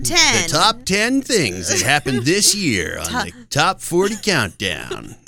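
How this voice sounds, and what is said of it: Imitates a radio countdown host's voice. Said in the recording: “my crummy Casey Kasem impression... Terrible”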